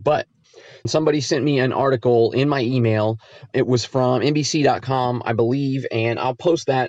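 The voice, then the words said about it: Raspy voice with a cold. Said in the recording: “I'm fighting a cold and my voice is a little bit raspy and I keep coughing”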